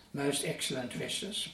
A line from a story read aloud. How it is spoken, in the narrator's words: Paul replied